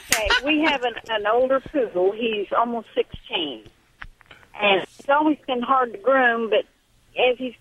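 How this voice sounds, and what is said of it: Slight Southern US accent. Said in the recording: “I'm detecting a little southern accent.”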